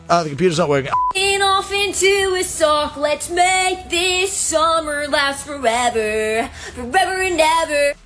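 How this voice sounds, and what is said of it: Imitates emo pop punk singing. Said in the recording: “my impression of every emo pop punk song from the early 2000s”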